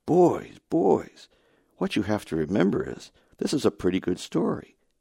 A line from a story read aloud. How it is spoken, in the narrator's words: said in a surprisingly soft voice